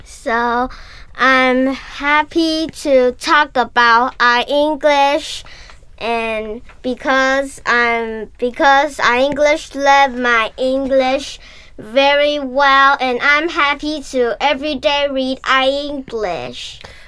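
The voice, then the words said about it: Child speaking English, American accent. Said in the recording (Chinese): “他们说英文的那个口音，我觉得是跟我小学学的那个就是口音是非常不一样的 ... 就是有那个很美式的那个口音”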